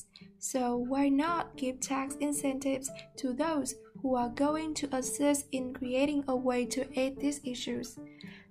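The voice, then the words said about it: Strong non-native English accent. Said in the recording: “my voice is terrible and my English doesn't sound like English at all”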